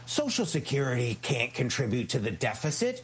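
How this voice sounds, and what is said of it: Imitates another person's voice. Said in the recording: “my bad Ronald Reagan impression”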